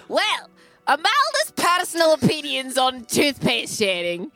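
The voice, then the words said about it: Put-on character accent, angry undertone. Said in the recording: “I'm going to try to stay in accent for this ... You'll notice there's an undercurrent of rage that is not usually in my character”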